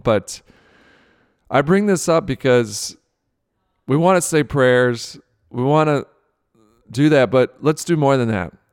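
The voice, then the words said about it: Emotional voice. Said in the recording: “you can hear it in my voice, I'm getting emotional”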